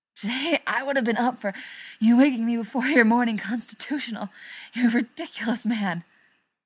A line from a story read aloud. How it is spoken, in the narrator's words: Rodney gasps